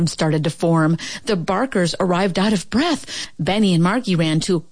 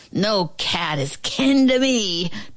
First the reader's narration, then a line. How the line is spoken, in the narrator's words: Turbo bellowed